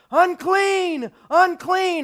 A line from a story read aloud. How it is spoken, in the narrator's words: they were supposed to yell out